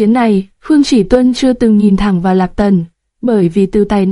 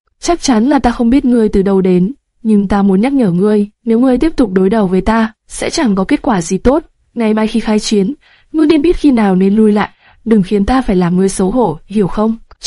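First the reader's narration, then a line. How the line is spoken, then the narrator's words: Smiling. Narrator (Vietnamese): Hắn mỉm cười, nói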